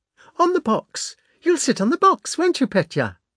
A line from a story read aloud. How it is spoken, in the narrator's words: cried Natasha